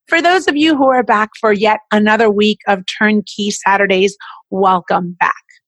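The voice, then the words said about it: Sick, congested voice from cold. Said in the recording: “I know that you hear in my voice a little bit different. ... I am still sick. I have been sick for 2 weeks and I just can't get rid of this cold.”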